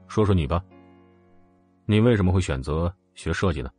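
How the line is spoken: Indifferent, casual tone. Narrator (Chinese): 冷风表情淡淡的说道

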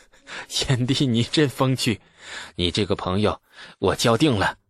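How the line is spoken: Bursting into laughter. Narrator (Chinese): 李克…扑哧一声大笑起来

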